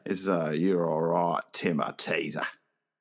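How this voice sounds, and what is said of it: Put-on Australian accent. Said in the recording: “I'm working on my accent. I'm getting a little... I'm not trying to be offensive to the Australian people.”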